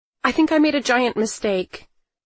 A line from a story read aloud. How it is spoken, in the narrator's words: I blurted out